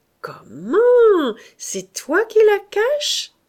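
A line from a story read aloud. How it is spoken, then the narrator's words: Exclaiming. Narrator (French): s'écria Mahoudeau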